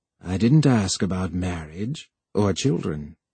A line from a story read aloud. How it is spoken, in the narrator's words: The computer said gravely